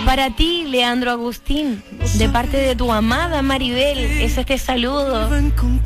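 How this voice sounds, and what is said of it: Romantic, tender voice. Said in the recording (Spanish): “hay que poner voz de romanticismo”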